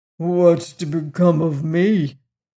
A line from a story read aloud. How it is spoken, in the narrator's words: asked the horse uneasily